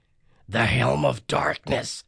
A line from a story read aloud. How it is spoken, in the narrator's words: Grover gasped